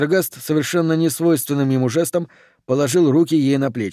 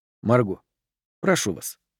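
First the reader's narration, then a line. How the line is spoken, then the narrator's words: Quiet. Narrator (Russian): негромко произнес он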